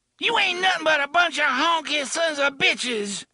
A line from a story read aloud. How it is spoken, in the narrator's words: she screamed